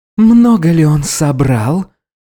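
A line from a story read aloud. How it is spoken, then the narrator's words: Predatory hiss. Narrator (Russian): хищно прошипела Капилляр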